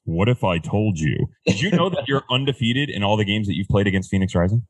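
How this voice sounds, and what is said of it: Sports broadcaster announcer voice. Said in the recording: “I do it in my ESPN voice.”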